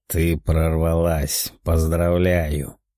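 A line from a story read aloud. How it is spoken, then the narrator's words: Flat emotionless demon voice. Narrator (Russian): безэмоционально сказал демон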